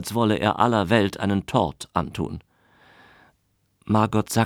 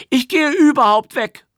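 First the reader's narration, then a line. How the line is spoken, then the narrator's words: High-pitched scream, small speaker. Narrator (German): schrie ein ganz kleiner im Diskant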